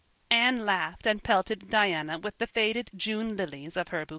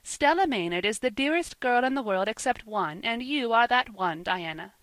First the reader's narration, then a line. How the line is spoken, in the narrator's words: she said